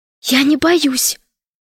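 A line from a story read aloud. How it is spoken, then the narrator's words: Frightened whisper. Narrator (Russian): прошептала Алиса, хотя очень боялась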